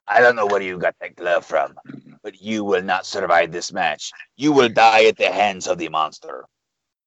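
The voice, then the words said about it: Imitates another person's voice. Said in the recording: “I don't know how good that impression was, but I tried.”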